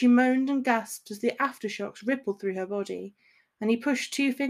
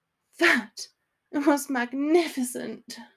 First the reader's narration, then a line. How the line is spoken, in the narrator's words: she panted